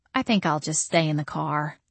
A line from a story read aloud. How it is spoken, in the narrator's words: I said meekly